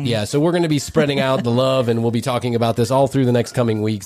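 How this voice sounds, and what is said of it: Sick, under-the-weather voice. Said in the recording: “I'm a smidge under the weather... As you can probably hear in my voice”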